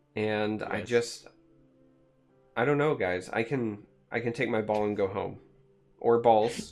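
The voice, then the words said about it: Sad, downcast voice. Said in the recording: “You sound sad.”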